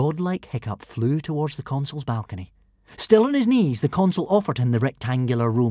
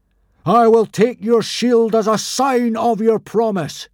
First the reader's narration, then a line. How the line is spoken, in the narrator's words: cried